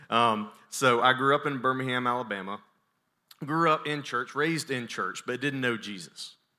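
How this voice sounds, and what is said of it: Southern American accent. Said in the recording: “I am from Birmingham, Alabama, if you can't tell. And if you can't tell, then you're with me in this southern accent.”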